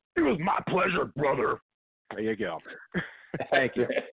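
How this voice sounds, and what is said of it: Imitates another person's voice. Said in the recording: “That was quite the impersonation.”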